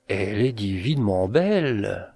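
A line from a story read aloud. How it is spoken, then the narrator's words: Intoxicated murmur. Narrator (French): murmura-t-il, et l'ivresse roulait des vagues rouges dans son cerveau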